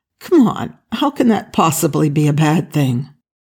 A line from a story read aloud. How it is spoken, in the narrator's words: Daniel sighed